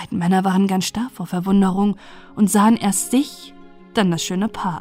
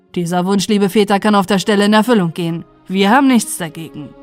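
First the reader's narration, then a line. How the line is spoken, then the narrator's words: Called out. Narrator (German): rief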